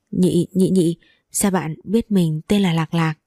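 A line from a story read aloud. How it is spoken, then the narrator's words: Embarrassed stammering question. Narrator (Vietnamese): Mặt lập tức đỏ bừng lên lắp bắp hỏi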